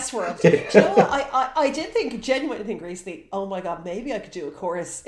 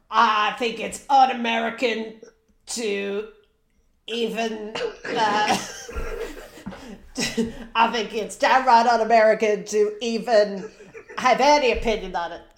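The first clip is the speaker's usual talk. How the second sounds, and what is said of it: Deep robotic put-on Texan accent. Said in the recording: “great things about that impression ... the downshifting into the level of bass that you needed in your voice at the start ... the sort of robotic undertone of it. You were going for Texas, but it was like a robot that was built in Texas”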